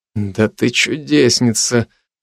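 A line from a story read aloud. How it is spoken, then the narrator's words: Whisper through teeth. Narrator (Russian): шепнул я сквозь зубы Агнес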